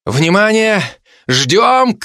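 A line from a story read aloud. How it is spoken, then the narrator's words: Shouted. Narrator (Russian): крикнул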